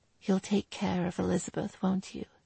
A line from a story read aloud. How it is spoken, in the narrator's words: Catherine whispered into his ear